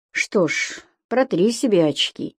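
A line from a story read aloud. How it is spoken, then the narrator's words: Flat, through clenched teeth. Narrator (Russian): без всякого выражения процедил Митька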